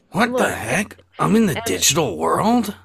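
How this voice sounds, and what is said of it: Sonic the Hedgehog character voice. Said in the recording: “does a pretty good Sonic impression”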